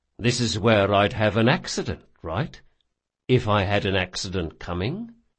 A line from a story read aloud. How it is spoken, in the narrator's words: he said softly